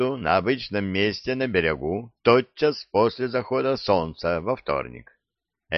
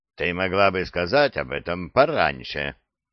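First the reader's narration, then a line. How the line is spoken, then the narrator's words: Grumbling. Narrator (Russian): проворчал Беллами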